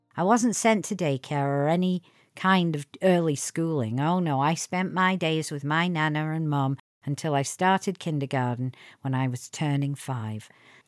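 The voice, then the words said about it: Northern English Lancashire accent. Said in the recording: “my other persona, which is a Northern English woman, complete with accent... a Lancashire girl again... the Northern English accent was thick as fog”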